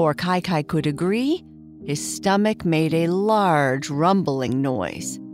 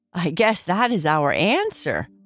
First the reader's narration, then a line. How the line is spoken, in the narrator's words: Boo Boo laughed